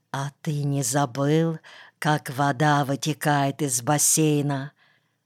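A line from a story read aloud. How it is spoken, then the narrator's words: Nagging inner whisper. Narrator (Russian): вредный червячок и шептал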